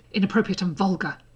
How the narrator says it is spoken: Draco muttered, still frowning

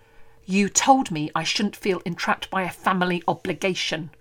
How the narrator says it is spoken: she hisses at him

